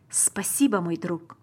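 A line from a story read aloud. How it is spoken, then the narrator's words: Plain. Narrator (Russian): сказал папа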